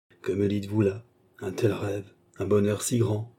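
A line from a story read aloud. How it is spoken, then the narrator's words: Murmured. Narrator (French): murmura Sir Williams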